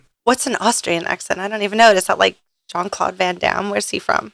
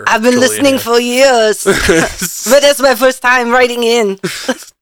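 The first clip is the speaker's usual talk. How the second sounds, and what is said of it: Imitates another person's Austrian-accented voice. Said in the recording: “Arnold Schwarzenegger accent ... Pretty good, Arnold.”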